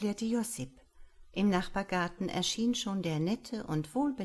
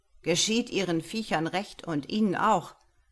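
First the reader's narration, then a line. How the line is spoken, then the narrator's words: Called across. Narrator (German): rief herüber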